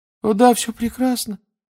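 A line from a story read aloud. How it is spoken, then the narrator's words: Babbling in unnaturally high voice. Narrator (Russian): пролепетал он все тем же неестественно высоким тоном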